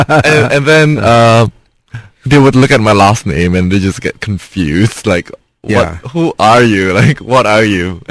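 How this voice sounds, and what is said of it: Mixed Singaporean and Indonesian accent. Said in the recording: “I have this weird mix of Singaporean and Indonesian accent ... It's not totally Singlish either”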